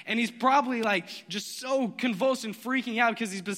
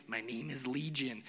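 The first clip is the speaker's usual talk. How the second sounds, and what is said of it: Creepy raspy Gollum-like character voice. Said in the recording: “creepy voice ... Gollum creepy”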